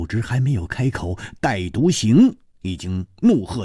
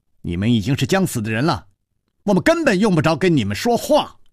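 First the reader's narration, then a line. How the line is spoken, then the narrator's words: Sharp young girl. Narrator (Chinese): 方才在湖边寻歌的少女厉声说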